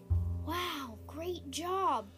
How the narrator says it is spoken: Boulder whispered

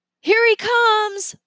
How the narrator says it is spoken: Leo shouted

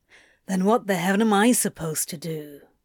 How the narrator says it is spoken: he grumbled

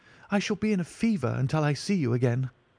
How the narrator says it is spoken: cried the diplomatist

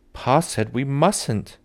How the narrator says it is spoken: Mary cried

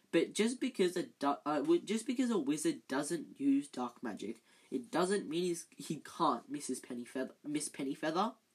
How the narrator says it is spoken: snapped Professor Binns

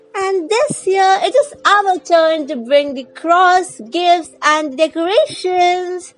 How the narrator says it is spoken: Princess Joy added happily

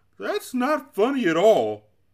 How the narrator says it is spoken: sobbed the Din

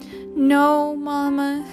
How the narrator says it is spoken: moaned

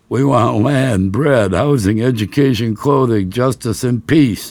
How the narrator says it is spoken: I shouted over my shoulder

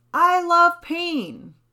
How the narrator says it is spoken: Or you could scream

